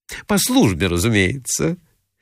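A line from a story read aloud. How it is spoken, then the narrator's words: Bold, cheeky blurt. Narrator (Russian): выскочила дерзкая Филисата Михайловна, насмешливо смотря ему прямо в глаза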